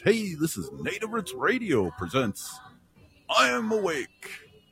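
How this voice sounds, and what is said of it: Radio DJ announcer voice. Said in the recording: “I'll do it in my DJ voice.”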